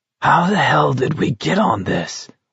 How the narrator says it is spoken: Olson croaked

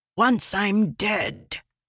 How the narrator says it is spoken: ELA hissed

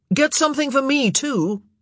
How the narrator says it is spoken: Colin called out

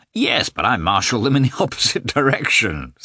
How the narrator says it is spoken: said Sviatsky, laughing

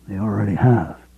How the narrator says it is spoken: Greg murmured

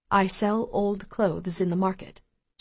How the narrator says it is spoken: she says in a barely audible voice

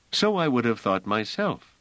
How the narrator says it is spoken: said Trevise

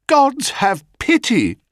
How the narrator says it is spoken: she cried

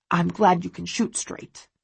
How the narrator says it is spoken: he says, his voice gruff

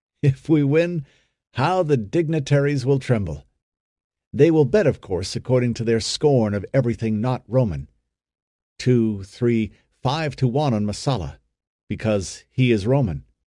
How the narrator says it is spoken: Malak chuckled with the pleasure of the thought

